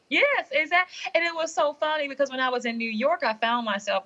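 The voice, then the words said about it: Southern American accent. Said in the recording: “your Southern accent”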